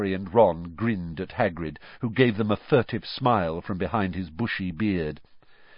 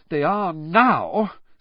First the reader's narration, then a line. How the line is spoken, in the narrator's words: said Hermione, in an exasperated voice